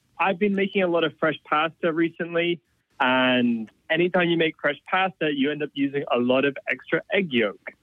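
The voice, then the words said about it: Mixed British, Australian, American accent. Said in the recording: “I am a British, Australian, American, mongrel ... I hear a little accent there”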